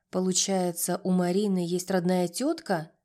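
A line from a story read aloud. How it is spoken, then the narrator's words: Plain question. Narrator (Russian): спросил он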